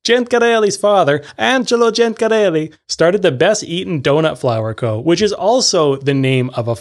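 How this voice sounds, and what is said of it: Usual voice. Nothing is said of it.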